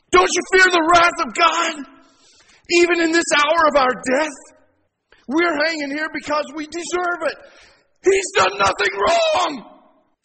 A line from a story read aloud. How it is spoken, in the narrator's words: he yelled over there